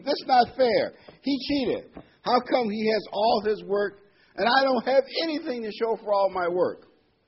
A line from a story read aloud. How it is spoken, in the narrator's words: screamed